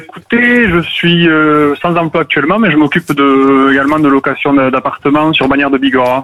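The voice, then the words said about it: Pyrenees regional French accent. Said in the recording (French): “petit accent des Pyrénées que j'entends”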